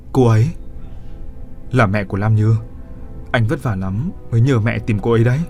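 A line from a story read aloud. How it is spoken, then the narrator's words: Woman whispering tenderly. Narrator (Vietnamese): Cô thủ thỉ hỏi hắn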